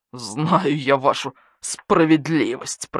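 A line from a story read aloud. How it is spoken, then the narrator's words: Wolf speaking through teeth. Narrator (Russian): процедил волк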